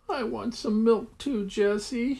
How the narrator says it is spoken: he begged

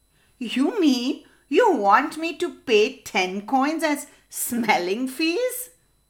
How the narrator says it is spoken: laughed the neighbor

